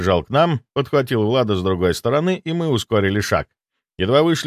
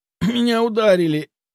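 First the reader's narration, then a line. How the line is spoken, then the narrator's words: Hoarse reply, coughing. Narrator (Russian): хрипло ответил и снова закашлялся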